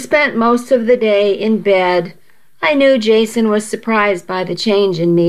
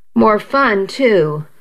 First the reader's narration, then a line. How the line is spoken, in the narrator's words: I murmured